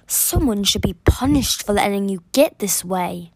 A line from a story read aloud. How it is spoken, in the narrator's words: the voice growled